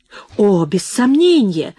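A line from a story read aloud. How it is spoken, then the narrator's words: Exclaiming with pathos. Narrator (Russian): с пафосом воскликнул атеист Парчевский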